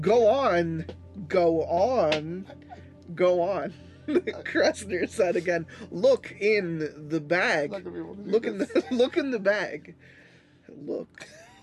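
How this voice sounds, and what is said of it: Christopher Walken impression. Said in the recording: “his Walken impersonation. Walken voice.”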